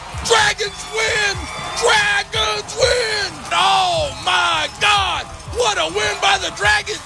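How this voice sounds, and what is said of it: Screaming excited play-by-play. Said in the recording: “Oh, I'm going to lose my voice.”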